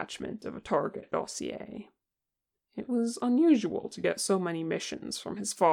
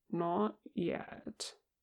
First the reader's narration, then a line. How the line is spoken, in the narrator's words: Kim said slowly